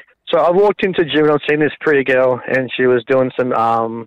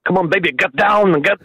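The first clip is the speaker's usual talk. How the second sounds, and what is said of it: Arnold Schwarzenegger impression. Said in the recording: “I'll do like an Arnold Schwarzenegger accent”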